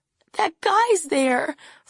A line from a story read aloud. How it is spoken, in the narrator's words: Franny sobs out